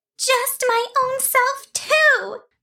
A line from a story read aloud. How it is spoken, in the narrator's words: cried